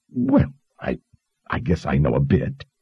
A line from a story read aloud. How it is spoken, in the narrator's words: she stammered in surprise